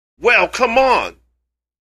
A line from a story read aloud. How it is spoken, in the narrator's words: he turns and shouts